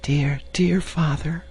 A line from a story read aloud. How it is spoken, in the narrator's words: she whispered